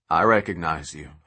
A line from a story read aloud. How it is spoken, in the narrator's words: Hightower says